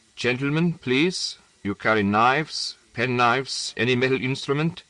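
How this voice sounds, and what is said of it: Foreign German or Bohemian accent. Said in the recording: “The accent, as usual, was foreign, German or Bohemian.”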